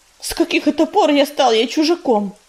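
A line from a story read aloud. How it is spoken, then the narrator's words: Indignant snort. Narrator (Russian): возмущенно фыркнул ежевика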